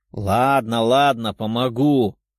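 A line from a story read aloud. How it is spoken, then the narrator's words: Grumbling. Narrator (Russian): проворчала зеленоволосая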